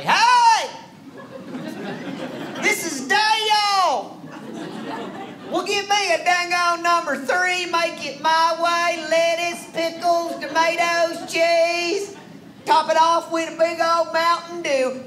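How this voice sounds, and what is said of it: Exaggerated thick redneck Southern accent. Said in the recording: “I decided to order in my best redneck Southern accent ... a thick, thick accent”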